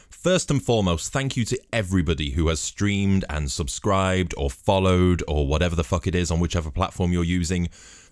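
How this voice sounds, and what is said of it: Very deep voice. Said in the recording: “sexy voice ... how deep my voice is ... it was this deep”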